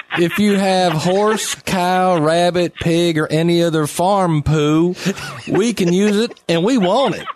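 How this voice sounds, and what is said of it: Put-on Southern American accent. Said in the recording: “do your best Southern accent”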